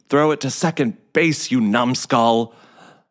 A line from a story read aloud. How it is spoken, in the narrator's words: Coach Kepler screamed